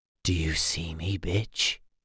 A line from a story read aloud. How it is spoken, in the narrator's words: whispered